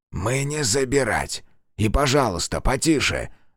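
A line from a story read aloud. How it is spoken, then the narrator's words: Hissed, hushing. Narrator (Russian): зашипел Кейран, прижав палец к губам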